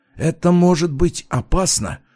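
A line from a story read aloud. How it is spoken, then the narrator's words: Whispered objection. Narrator (Russian): почему-то шепотом возразил Жак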